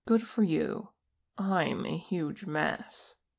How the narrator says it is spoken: Che said

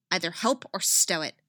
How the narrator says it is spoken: snaps

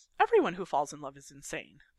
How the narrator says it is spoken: Peyton says cheerfully

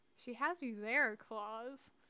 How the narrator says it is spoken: Lilith murmured

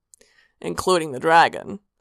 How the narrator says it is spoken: Sanguine said dryly

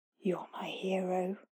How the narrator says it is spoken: Howie whispered to her when they were close

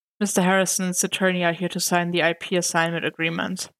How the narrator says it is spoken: Karen sighed and said

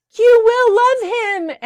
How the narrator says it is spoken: Annie shouted

